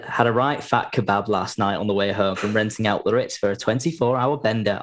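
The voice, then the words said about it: Put-on Northern English accent. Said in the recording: “I added the accent. ... I read it in exactly the same accent in my head. ... It feels like quite a northern thing to do.”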